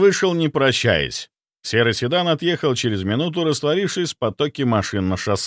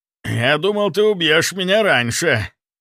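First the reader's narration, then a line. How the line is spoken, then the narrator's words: Hoarse. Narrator (Russian): хрипло сказал он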